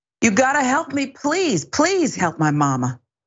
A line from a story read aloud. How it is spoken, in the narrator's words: Kenachia is heard yelling multiple times